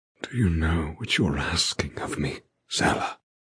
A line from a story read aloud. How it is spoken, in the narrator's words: He rasps, his voice low and tortured